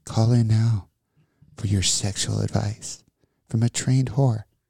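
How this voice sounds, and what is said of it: Soft, sensual late-night radio voice. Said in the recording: “please do your soft, sensual voice... My sensual radio voice... late night talk show”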